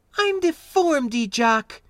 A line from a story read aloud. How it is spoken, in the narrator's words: she snapped, then flourished theatrically